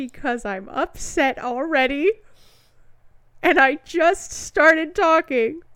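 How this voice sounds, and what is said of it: Usual voice. Nothing is said of it.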